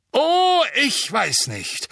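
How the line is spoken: Booming voice. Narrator (German): sagte Madame Bones mit ihrer dröhnenden Stimme

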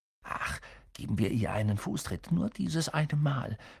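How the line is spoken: Whispering in ear. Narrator (German): flüsterte Ron Harry ins Ohr

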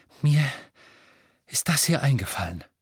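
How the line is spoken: Panting. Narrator (German): keuchte Hermine

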